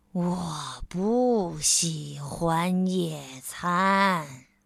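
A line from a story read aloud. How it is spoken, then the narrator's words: Sulky complaining. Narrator (Chinese): 慢吞吞先生拉长了脸，他抱怨说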